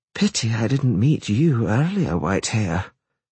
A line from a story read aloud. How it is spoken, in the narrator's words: she murmured